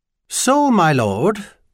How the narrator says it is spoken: Archbishop Claremont Gerling kept his tone rather lighter than he actually felt at this particular moment

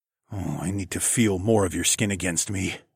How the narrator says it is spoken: I growled

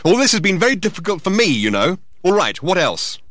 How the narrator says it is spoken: he added angrily

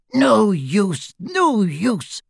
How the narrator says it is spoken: snarled the goblin

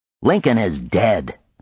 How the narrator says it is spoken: Frank snapped

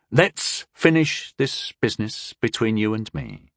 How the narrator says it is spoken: Tyndall said to Caffin evenly

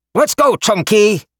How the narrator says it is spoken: Gojen shouted

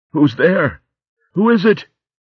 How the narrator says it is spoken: he cried out

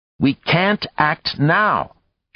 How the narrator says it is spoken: she said sharply

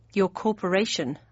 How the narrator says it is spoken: I muttered

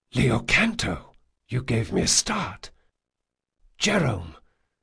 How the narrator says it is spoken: they both spoke in a near whisper

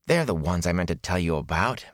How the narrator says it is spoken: Matt muttered

